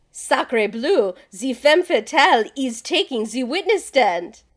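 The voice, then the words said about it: Poor put-on French accent. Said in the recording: “I just really wanted to do a French accent. It's not very so good.”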